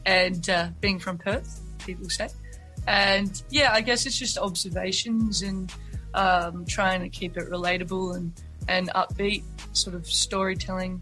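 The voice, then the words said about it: Strong Australian accent. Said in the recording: “I've got a very strong Australian accent.”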